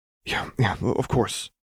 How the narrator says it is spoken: Lux muttered

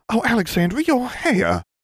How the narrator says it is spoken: Julia gasped

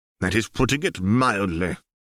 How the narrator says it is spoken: Hector snorted

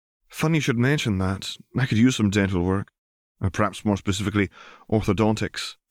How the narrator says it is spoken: sighed Lila

